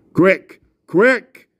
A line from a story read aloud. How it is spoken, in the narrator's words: shouted the voice of Aslan